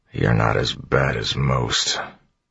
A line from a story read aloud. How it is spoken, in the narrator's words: Clubs muttered